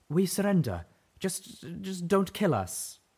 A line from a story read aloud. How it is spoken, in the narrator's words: called out